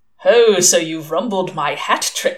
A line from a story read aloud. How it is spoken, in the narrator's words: he chuckled